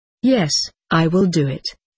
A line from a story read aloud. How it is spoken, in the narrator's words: he said